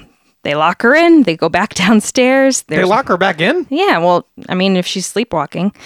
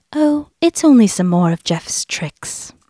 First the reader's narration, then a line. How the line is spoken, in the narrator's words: Vari told Dennis calmly